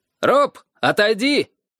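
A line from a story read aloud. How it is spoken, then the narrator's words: Shouted. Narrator (Russian): крикнул он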